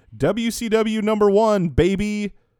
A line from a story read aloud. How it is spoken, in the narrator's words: a fan yelling